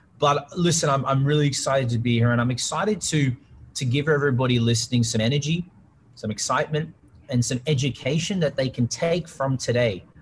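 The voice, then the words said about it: Australian accent. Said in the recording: “It's an Australian accent.”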